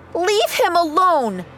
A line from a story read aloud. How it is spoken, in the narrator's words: She yelled